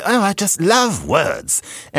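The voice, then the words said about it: Mock British accent, not convincing. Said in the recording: “doing a mock British accent ... Not that it was a good one”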